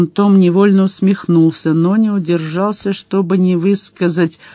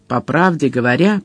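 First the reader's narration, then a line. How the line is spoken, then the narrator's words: Irritated muttering. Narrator (Russian): пробурчал Коала раздраженно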